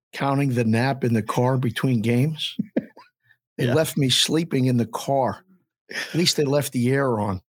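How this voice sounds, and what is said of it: Hoarse voice. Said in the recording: “The book is hoarse today.”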